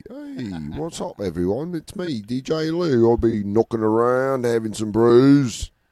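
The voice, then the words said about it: Put-on British accent. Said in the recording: “maybe we should always do British when we're talking about Lou”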